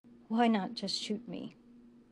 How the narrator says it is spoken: He asked, his voice just above a whisper

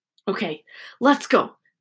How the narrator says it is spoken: George whispered

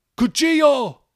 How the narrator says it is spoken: the man cried as he hit the dirt

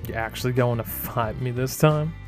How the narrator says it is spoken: Cardin laughed

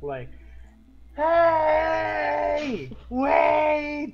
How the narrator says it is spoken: You scream

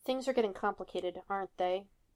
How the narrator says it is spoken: Against his neck, Tony groaned

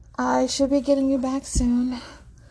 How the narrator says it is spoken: Leo says with a sigh

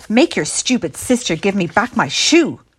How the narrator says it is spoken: snapped Lily Jean

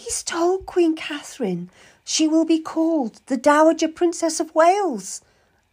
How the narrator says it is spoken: Lady Jane Seymour whispered to me

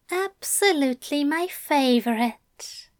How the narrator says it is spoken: he said warmly

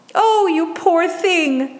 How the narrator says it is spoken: the conductor cried

